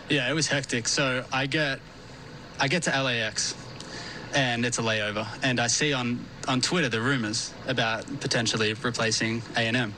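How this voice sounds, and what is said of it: Australian accent. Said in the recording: “You are Australian, as people may have heard from your accent.”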